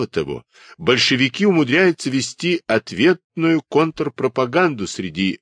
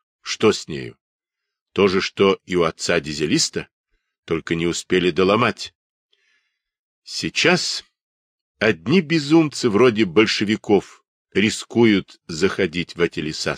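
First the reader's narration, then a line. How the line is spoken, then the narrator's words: Plain. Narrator (Russian): сказал Сыромятев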